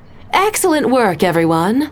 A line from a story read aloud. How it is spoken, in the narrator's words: Stephanie said brightly